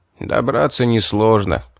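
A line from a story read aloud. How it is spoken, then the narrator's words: Regretful sigh. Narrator (Russian): с сожалением вздохнул Савор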